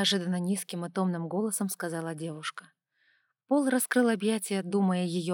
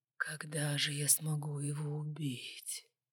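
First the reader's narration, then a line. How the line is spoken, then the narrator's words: Sinister whisper. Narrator (Russian): зловещего шепота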